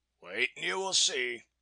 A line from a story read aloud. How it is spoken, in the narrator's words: he answered grimly